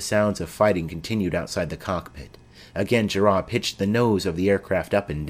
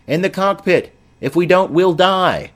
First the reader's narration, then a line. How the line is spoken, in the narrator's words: a passenger yelled